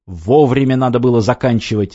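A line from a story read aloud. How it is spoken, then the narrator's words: Barking snap. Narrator (Russian): рявкнул Львович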